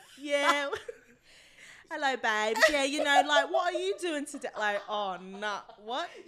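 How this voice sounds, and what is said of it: Poor put-on British accent. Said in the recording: “I couldn't do like the British accent ... You went Peaky Blinders on them”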